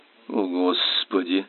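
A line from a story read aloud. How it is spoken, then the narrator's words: Strained, forced out. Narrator (Russian): выдавил из себя Чарльз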